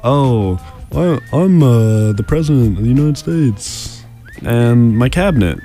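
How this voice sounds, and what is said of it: Imitates a TV drama's characters. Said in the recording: “That was my imitation of West Wing.”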